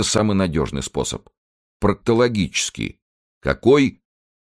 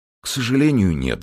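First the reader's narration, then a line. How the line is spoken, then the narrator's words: Sighing. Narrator (Russian): вздохнул министр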